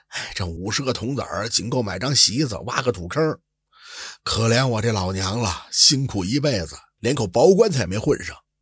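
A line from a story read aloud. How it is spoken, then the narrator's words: Murmuring. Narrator (Chinese): 他喃喃的说着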